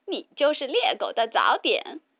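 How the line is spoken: Mocking, teasing. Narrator (Chinese): 哥哥们总取笑他

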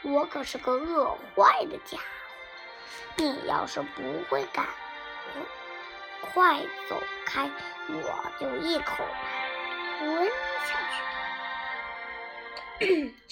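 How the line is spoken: Gentle. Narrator (Chinese): 他温柔地说

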